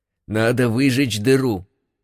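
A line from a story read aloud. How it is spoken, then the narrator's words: Hoarse rasp. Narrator (Russian): прохрипел капитан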